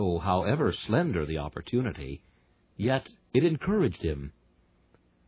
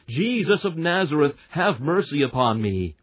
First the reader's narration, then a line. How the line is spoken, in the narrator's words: he should shout aloud